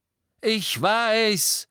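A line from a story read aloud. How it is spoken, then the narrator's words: Roaring. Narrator (German): brüllte Harry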